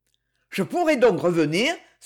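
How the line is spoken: Exclaiming. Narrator (French): s'écria Marcel

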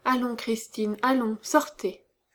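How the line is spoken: Mad murmur. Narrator (French): Elle était retombée dans sa folie et murmurait

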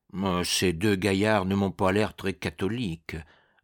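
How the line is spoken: Grumbling. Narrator (French): grommelait Mi-carême

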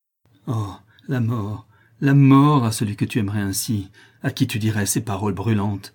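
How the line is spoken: Furious jealous outburst. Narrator (French): s'écria-t-il dans un emportement de jalousie et d'ardeur furieuse

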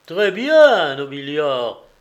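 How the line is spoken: Magistrate exclaiming. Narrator (French): s'écria le prêteur

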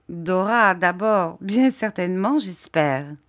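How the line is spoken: Laughing. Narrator (French): dit Agnès en riant

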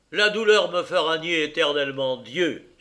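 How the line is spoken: Exclaiming in peak exaltation. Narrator (French): s'écria Clément au paroxysme de l'exaltation

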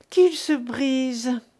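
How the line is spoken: Deep sigh. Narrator (French): dit Mignon avec un profond soupir

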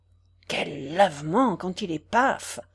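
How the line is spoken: Impatient murmur. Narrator (French): murmura Gervaise impatientée

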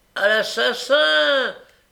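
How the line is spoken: Shouting. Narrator (French): criait Noé

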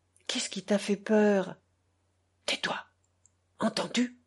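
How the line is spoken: Quiet low reply. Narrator (French): répondit-elle tout bas

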